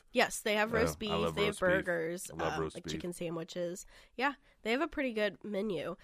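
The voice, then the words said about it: Congested voice, stuffy nose. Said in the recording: “do you have a cold? You sound congested. ... Yeah, I have a little bit of a cold.”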